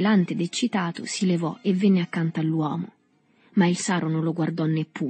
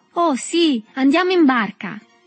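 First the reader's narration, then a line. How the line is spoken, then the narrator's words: Shouted. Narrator (Italian): gridò il negro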